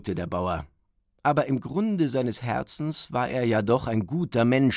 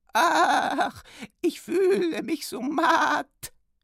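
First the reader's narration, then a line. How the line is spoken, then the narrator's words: Whining. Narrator (German): jammerte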